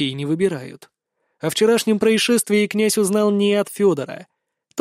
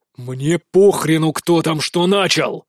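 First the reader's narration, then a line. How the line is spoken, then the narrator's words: Sudden barking shout. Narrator (Russian): Внезапно рявкнул Вишневецкий-старший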